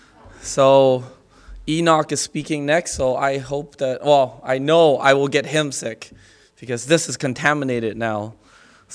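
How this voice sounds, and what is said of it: Sick-sounding voice. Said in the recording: “apologize for my voice. My wife got me sick.”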